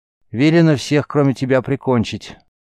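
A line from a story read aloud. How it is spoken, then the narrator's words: Completely calm. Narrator (Russian): Ангус произнес это совершенно спокойным тоном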